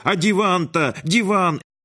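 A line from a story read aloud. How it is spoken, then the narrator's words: Old woman's wild yell. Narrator (Russian): бабка дико заорала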